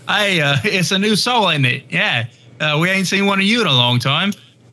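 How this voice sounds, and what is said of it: Goblin character voice with accent. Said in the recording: “pretty good. I kind of like it. It's pretty good. You kind of nailed that accent.”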